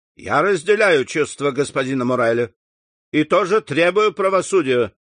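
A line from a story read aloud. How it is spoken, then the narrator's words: Loud. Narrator (Russian): сказал он громко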